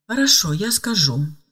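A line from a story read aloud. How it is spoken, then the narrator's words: Calm. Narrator (Russian): спокойно ответила Ева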